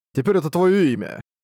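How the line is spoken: Snide smirking reply. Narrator (Russian): Ехидно ухмыльнулся тот в ответ

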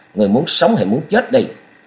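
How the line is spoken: Young man barking. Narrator (Vietnamese): Chàng quát

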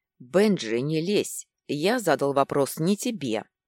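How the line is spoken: Sharp interruption. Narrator (Russian): резко перебил лорд

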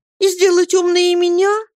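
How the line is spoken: Timid speech. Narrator (Russian): робко промолвила Дора

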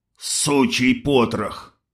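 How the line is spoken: Through clenched teeth, burly man. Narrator (Russian): процедил крепкий тип

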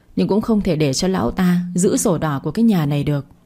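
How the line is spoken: Sighing. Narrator (Vietnamese): Bà Vân thở dài

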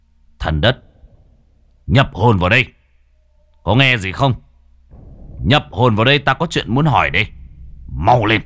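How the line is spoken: Stern voice. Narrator (Vietnamese): Cậu nghiêm giọng

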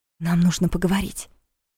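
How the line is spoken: Whisper. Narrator (Russian): шепнула

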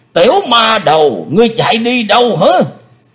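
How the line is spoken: Roaring. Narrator (Vietnamese): tiếng gầm rống

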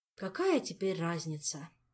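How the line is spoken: Sad sigh. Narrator (Russian): печально вздохнул Арчибальд

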